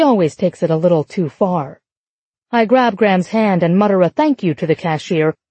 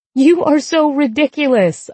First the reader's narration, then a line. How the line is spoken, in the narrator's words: I say, laughing